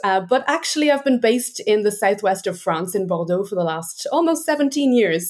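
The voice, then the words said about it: Irish accent. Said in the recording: “I am Irish, as you can hear from my accent”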